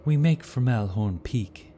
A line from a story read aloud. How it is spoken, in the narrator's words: he said, though something in his voice hinted of regret